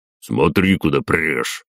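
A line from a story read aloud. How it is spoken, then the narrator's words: Barked, deep male voice. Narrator (Russian): гаркнул мужской бас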